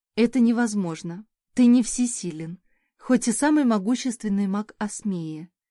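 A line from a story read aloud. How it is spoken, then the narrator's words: Sad speech. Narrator (Russian): грустно проговорила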